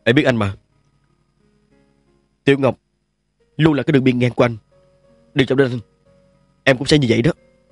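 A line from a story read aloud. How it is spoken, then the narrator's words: Cold speech. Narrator (Vietnamese): Nhan Cận lạnh lùng mới nói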